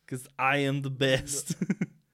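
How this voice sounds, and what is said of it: Arnold Schwarzenegger accent impression. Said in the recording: “doing the Arnold's, doing the Schwarzenegger accent”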